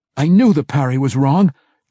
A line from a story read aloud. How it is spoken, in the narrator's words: Drizzt cried, already savoring the next time he would get the opportunity to foil the double thrust low